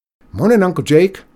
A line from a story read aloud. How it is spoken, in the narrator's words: called out